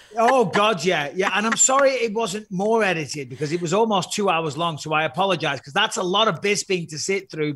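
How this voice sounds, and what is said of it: British accent. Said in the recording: “especially in a British accent”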